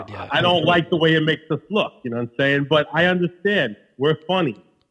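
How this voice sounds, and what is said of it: Queens New York accent. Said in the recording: “My accent is funny. How I talk is funny ... my Queens accent”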